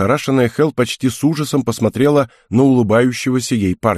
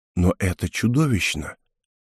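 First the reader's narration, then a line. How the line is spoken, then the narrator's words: Quiet. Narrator (Russian): тихо сказала она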